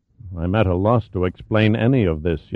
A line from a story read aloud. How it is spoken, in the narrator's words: Yasenin admitted quietly